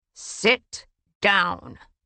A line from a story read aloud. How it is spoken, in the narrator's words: Rhys snarled